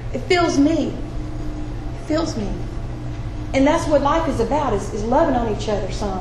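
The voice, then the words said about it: Emotional, voice choked up. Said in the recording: “I got emotional”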